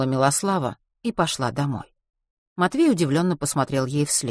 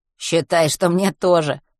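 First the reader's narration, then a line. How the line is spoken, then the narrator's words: Snort. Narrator (Russian): хмыкнул Матвей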